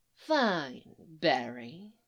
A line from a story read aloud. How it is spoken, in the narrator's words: he had purred